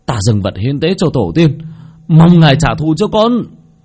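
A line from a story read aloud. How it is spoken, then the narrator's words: Shouting. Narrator (Vietnamese): hét lên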